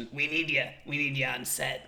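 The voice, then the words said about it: Imitates another person's voice. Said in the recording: “my Roberto impression ... He sounds literally nothing like that.”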